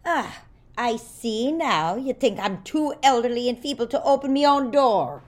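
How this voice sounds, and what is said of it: Put-on accent. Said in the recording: “doing his accent again”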